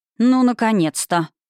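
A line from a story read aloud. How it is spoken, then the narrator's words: Booming, feigned displeasure. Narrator (Russian): прогудел он, стараясь говорить недовольным тоном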